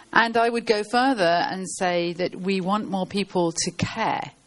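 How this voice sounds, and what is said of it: British English accent. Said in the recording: “as you might be able to tell from my voice, I come from the UK”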